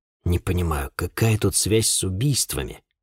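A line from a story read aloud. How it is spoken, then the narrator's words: Muttered. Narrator (Russian): буркнул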